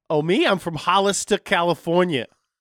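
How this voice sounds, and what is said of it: New Jersey-sounding accent. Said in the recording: “You sound like you're from New Jersey.”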